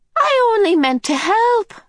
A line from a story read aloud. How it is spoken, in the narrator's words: the medium wailed